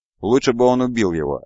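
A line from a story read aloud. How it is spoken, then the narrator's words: Irritated. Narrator (Russian): раздраженно сказал Виктор Григо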